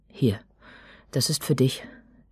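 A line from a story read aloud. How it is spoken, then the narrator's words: Near stutter. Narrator (German): er stotterte jetzt beinahe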